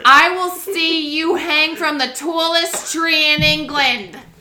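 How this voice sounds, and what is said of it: Put-on New Jersey accent. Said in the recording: “I'm just going to speak in a New Jersey accent”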